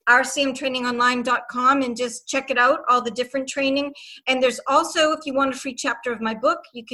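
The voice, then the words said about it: Boston accent. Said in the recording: “That's my Boston accent.”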